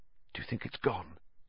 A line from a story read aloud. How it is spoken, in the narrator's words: Harry whispered